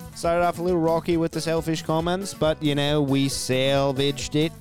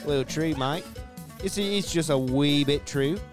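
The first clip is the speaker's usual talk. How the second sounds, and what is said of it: Put-on Australian accent. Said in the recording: “Little Australian accent”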